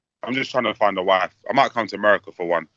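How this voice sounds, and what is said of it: UK accent. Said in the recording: “they dig the UK accent”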